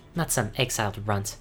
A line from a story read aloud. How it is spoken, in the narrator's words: whispered